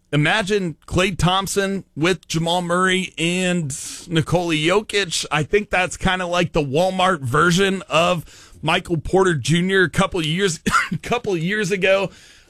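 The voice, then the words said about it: Hoarse, strained voice. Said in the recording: “I'm losing my voice here.”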